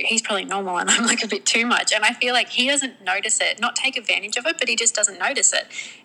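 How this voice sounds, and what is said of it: Speaks with a noticeable accent. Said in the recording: “love your accent.”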